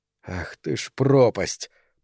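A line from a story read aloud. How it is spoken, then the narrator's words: Hissed curse. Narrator (Russian): прошипела Хельга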